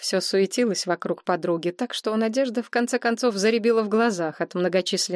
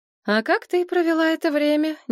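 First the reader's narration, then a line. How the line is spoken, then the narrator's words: Innocent voice. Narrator (Russian): невинным голосом спросила она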